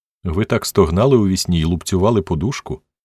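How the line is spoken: Plain. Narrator (Ukrainian): сказала вона

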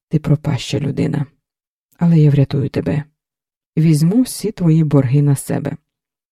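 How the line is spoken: Calm, suppressed anger. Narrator (Ukrainian): Стримуючи у собі злість, сказала спокійно

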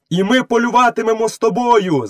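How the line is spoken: Wolves shouting together. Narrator (Ukrainian): закричали 4 вовків

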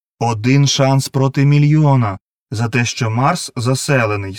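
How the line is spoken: Plain. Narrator (Ukrainian): сказав він

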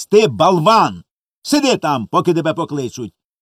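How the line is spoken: Angry shout. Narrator (Ukrainian): сердито крикнула вона

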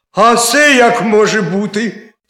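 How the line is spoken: Sudden cry. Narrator (Ukrainian): скрикнув заєць

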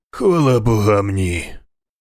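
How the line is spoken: Baron sighing. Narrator (Ukrainian): зітхнув барон

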